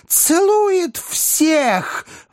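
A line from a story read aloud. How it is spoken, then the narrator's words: Delighted little boy squealing. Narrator (Russian): взвизгнул восторженный маленький джентльмен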